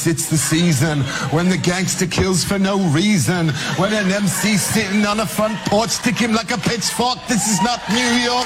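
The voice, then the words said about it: British accent while rapping. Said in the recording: “the British kind of accent”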